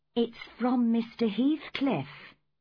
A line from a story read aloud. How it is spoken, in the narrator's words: I said gently